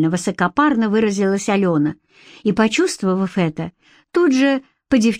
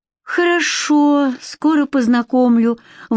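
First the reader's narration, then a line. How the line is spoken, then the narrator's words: Forced out reluctantly. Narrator (Russian): выдавила из себя Катя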